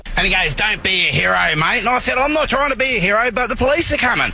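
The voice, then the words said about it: Rough, broad Australian accent. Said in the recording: “That accent just is a little bit dirtier of an Australian accent”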